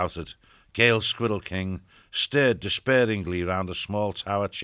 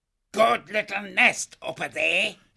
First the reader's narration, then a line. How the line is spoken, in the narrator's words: he croaked